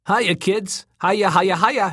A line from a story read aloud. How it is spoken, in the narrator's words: he croaked, chortling